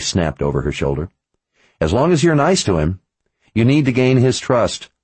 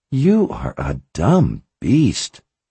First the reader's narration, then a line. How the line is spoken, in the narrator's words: she said in a syrupy, sweet voice